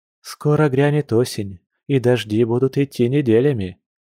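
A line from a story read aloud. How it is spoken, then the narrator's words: Gentle warning. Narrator (Russian): мягко предостерегла Маша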